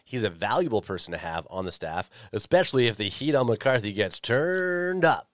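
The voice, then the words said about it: Announcer-style radio voice. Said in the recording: “That's the radio voice.”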